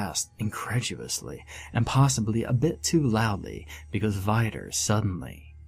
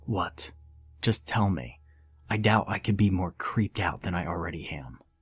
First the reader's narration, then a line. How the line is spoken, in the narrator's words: I was getting impatient so I said as quietly as I could while expressing my annoyance